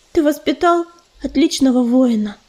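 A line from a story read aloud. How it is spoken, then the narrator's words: Quiet. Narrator (Russian): тихо сказала Листвечка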